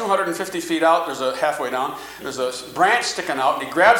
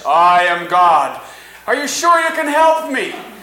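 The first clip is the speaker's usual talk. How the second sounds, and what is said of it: Big booming voice of God. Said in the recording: “More rumbling in a bigger voice”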